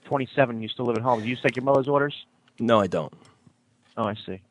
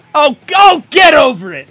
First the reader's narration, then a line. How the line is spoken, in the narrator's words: You yelled at your mother